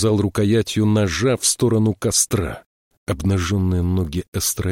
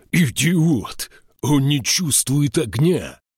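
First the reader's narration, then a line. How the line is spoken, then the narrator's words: Growled. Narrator (Russian): прорычал Эйнскалдир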